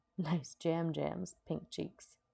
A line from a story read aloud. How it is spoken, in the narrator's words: snorted, saying